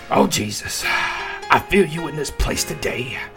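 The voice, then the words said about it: Preacher-style character voice. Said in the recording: “Black preacher voice. ... I love that voice.”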